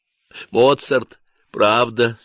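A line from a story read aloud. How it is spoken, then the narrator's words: Tearful question. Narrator (Russian): спросил сквозь слезы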